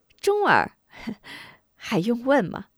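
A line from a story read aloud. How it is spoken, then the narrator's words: Old woman cackling. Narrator (Chinese): 康婆婆咯咯的笑了起来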